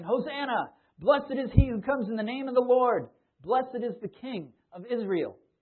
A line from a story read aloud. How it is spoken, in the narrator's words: shouting